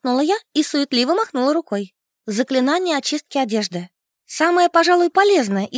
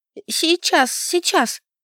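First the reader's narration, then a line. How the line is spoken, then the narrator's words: Trembling, frightened voice. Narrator (Russian): дрожащим голосом отозвалась я, потому что вид у Хейвуда был жуткий, страшнее недавнего вурдалака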